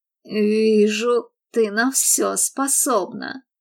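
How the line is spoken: Gritted, deathly sinister. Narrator (Russian): процедил он и объявил мертвенно-зловещим голосом

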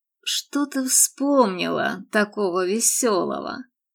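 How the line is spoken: Lazy question. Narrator (Russian): лениво спросил он

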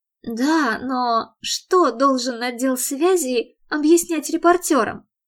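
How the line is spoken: Halting sigh, confessing. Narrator (Russian): Мередит прерывисто вздохнула и призналась

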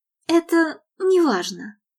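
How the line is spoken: Breathed out. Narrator (Russian): выдохнула Мередит

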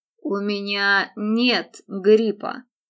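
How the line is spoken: Pointedly dry announcement. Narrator (Russian): подчеркнуто сухо объявил Мэтт

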